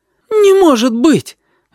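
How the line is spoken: Woman's joyful call from another room. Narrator (Russian): радостно отозвалась тетка из комнаты, словно она только и ждала моего возгласа

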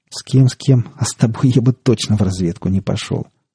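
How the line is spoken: Laughing. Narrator (Russian): рассмеялся он

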